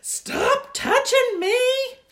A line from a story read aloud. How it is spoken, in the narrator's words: she hollered right in my face